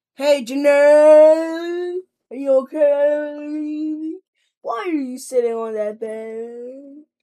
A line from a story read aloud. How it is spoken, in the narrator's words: He bellowed